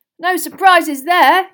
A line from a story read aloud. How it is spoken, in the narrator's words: yelled Ron, as a storm of applause and cheering swept the hall